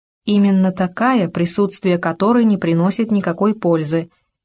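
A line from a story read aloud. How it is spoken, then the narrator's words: Quiet young woman. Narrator (Russian): тихо ответила девушка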